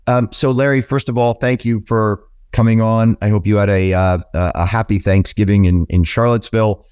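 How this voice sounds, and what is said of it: Sick-sounding voice. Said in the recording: “as you can tell by my voice... I still sound like I'm a little sick”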